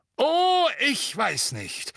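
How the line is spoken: Booming voice. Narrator (German): sagte Madame Bones mit ihrer dröhnenden Stimme

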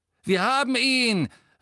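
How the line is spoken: Calling out. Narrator (German): rief der am nächsten stehende Todesser

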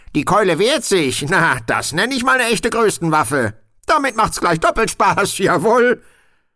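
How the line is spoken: Called out. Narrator (German): rief Rob

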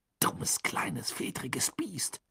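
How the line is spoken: Hissing. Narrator (German): zischte Ron

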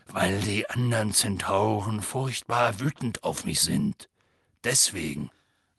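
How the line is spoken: Quiet. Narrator (German): sagte leise

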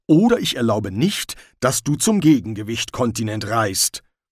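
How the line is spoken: Growl. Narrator (German): knurrte Ridcully

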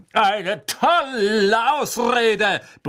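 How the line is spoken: Roar. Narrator (German): brüllte Sir Cadogan

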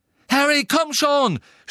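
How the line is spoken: Shout. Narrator (German): schrie

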